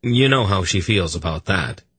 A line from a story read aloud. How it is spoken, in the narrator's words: Durnik sighed